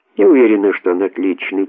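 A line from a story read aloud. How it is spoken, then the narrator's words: Soft. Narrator (Russian): тихонько сказала Урсула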